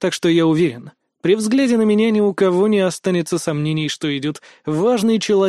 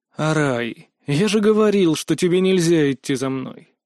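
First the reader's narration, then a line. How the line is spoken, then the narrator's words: Sighing. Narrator (Russian): Вздохнул я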